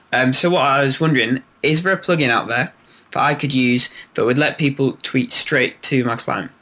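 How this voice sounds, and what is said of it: Strong accent, hard to follow. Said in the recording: “I love your accent. It's almost tough to get through it”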